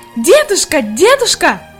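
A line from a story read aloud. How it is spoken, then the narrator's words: Shouting with all strength. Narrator (Russian): Изо всех сил кричала Хайди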